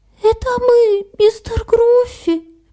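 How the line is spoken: Squeaky voice. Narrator (Russian): пропищал Харви

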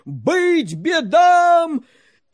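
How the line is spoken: Crowd shouting. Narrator (Russian): крестьяне и миряне, православные христиане, закричали

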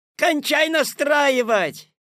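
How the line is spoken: Shout from audience. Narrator (Russian): крикнули из зала

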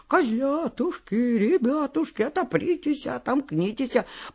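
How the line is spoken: Wolf singing in thin voice. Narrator (Russian): А волк и запел тоненьким голоском

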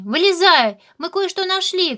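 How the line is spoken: Shouting. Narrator (Russian): крикнул Ру, решив, что Вилли подшутил и спрятался

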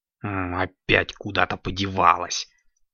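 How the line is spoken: Muttering. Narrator (Russian): бормотал он

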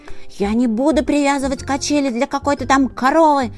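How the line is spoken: Yelled while flying. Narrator (Russian): вопил он на лету

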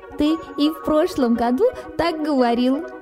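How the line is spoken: Laughing. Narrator (Russian): засмеялся Харви

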